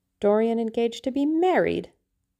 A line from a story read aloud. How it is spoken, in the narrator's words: he cried